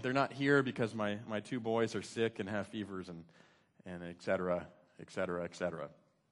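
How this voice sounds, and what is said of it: Strained, failing voice. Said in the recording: “my voice may give out over the course of this sermon... I'm not doing very well”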